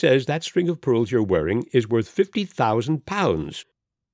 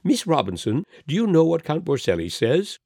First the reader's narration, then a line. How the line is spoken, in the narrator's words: exclaimed